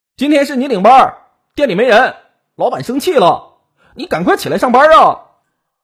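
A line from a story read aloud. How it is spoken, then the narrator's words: Male voice shouting. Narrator (Chinese): 门外男同事 大喊道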